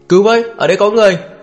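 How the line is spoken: Panicked scream. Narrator (Vietnamese): Tim Tố Diệp suýt nữa thì nhảy vào sang ngoài, Hà Minh lên lập tức hét lên lên trời

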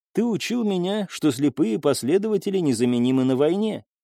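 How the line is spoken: Plain. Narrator (Russian): сказала Элина

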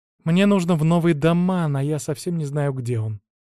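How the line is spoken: Sigh. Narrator (Russian): вздохнул я

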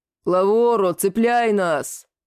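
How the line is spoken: Deep booming voice. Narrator (Russian): пробасил на все Южное море Лигнурф

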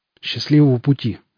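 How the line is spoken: Breathed out. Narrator (Russian): выдохнул боец

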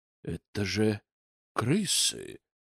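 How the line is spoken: Astonished whisper. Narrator (Russian): пораженно прошептал Зотов

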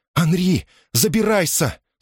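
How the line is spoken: Desperate shout. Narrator (Russian): С отчаянным голосом крикнула сирена

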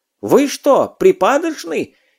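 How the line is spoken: Professor, frantic screaming. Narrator (Russian): истошно завопил профессор

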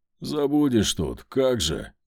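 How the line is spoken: Muttered. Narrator (Russian): буркнул Рогов

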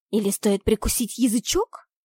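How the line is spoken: Hissing. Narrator (Russian): Зашипела я

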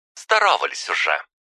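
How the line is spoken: Sharp bark. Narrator (Russian): рявкнула мелкая госпожа Анна

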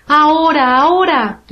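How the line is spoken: Queen shouting. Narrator (Spanish): gritó la reina

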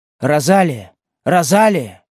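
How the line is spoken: Shouting. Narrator (Russian): кричала она

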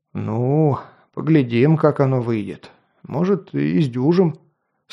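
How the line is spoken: Sigh. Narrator (Russian): Снова вздохнул купец

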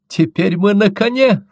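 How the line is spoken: Sudden cry. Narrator (Russian): вскрикнула девица

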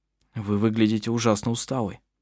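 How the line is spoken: Concerned. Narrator (Russian): озабоченным голосом сказал он

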